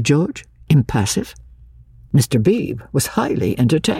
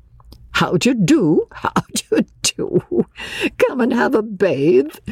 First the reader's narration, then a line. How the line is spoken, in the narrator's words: chuckled